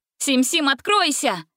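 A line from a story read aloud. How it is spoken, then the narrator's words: Girl's shout. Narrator (Russian): крикнула Гретель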